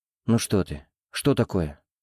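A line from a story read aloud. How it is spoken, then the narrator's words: Gentle, soothing question. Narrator (Russian): ласково спросил Артем, пытаясь ее успокоить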